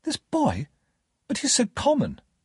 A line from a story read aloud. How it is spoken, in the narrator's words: Estella exclaimed